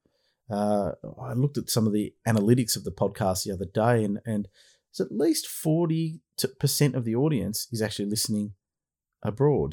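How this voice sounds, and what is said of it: Australian accent. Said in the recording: “I hope you can understand my Aussie accent.”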